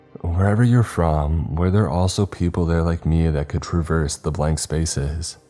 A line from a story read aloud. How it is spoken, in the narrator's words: I asked